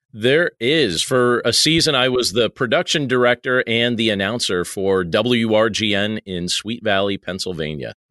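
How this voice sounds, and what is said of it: Polished radio announcer voice. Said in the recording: “This ... guy kind of has a radio voice, too.”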